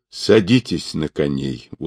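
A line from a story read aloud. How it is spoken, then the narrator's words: Weary. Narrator (Russian): устало сказал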